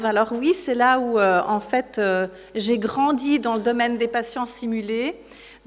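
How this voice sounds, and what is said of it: Swiss French accent. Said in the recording (French): “mon accent, puisque je viens de Suisse, à côté francophone”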